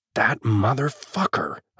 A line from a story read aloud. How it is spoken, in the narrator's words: I snarl